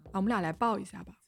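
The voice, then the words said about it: Very gentle, tender voice. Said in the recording (Chinese): “他用一种特别温柔的声音说”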